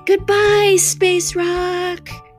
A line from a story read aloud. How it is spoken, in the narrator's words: everyone yelled